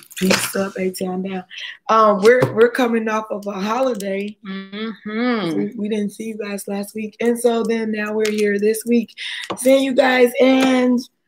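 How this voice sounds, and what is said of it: Hoarse, nearly lost voice. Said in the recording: “apologize for my voice because ... But my voice is gone. I don't know where it went. I lost it.”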